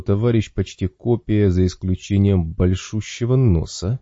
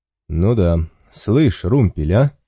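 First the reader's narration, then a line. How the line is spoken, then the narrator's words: Bearded man's light chuckle. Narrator (Russian): Бородатый слегка хохотнул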